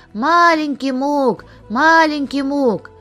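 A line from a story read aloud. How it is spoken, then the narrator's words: Boys shouting. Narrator (Russian): мы, мальчишки, кричали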